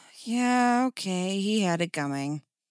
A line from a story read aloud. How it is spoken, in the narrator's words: Dick sighed